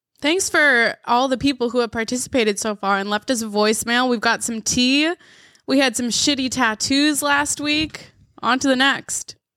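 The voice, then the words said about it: Voice cutting out, sick-sounding. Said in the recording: “I don't know why my voice keeps going out... I'm definitely sick, for sure.”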